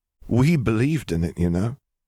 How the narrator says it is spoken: he said hoarsely

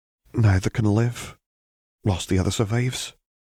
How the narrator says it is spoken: Minerva said sadly

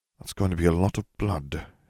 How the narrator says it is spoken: Harry murmured

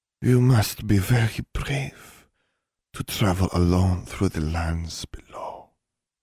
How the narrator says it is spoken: Bewee purred

